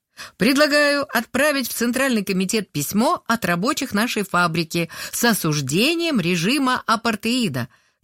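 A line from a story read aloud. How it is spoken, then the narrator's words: Loud, clear reading. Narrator (Russian): громко и четко прочитала она по шпаргалке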